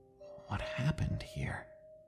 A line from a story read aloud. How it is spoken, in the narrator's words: muttered under my breath